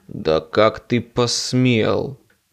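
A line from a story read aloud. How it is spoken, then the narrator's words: Hissed. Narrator (Russian): прошипел он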